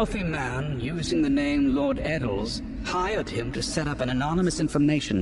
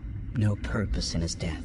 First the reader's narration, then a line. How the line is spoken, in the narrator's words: Xana muttered, chewing her lip thoughtfully